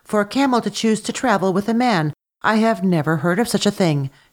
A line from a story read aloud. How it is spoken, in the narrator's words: she exclaimed